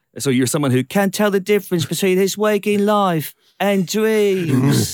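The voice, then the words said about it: Flat, emotionless imitation of an accent. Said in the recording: “I love the accent. And I have been doing impressions of it relentlessly ... like kind of like emotionless, like dead-eyed.”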